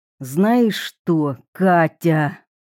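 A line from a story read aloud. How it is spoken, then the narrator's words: Growled. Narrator (Russian): прорычал он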